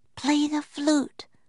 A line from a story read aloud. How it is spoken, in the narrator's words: whispered Annie